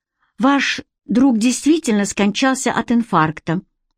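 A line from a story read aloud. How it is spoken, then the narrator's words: Sighing. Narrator (Russian): вздохнул инспектор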